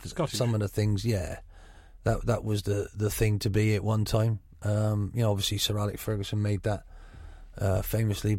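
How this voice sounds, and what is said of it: Gloucestershire West Country accent. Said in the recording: “you have a Gloucestershire burr in your voice”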